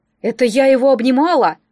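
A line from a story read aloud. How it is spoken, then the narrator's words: Muttered gruffly. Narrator (Russian): буркнула Анна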